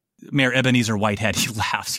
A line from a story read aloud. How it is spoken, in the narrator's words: he chuckles